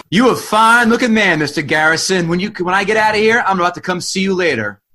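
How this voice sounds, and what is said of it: Poor put-on Southern accent. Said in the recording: “Your crappy black Southern accent didn't help.”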